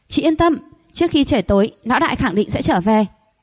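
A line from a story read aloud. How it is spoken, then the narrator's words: Hurried reassuring. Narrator (Vietnamese): Thấy cô thực sự tức giận, Nam Công Liệt vội vàng nói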